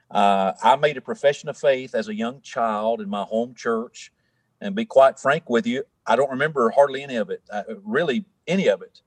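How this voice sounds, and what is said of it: Tennessee Southern accent. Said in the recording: “I'm from Tennessee. You can probably hear that in my accent”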